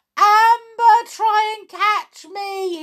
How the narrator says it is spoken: he shouted

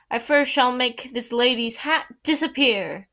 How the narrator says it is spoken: cried the king

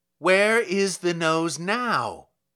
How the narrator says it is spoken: cried

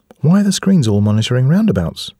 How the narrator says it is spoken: said Edie

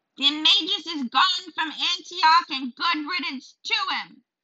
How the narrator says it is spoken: screeched the crone

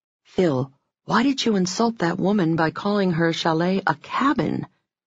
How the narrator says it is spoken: I whispered to my friend

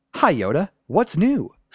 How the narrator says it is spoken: said Luke

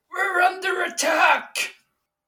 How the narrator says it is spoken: scream out into the hallway

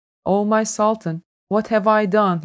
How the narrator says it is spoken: he said

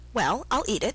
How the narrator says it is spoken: said Alice

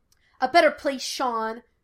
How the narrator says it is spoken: Gus snapped

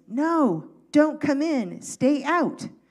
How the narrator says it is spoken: all the students yelled at one voice

